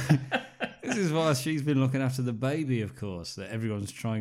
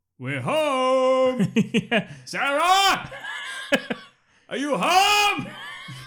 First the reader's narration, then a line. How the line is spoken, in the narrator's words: the dad gets home and shouts